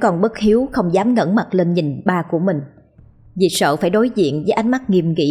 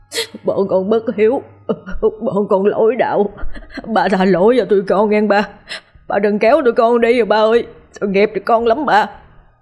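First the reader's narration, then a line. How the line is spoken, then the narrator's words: Crying group reply. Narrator (Vietnamese): Tất cả khóc lóc đáp lại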